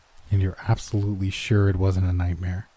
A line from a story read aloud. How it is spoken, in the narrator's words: She sighed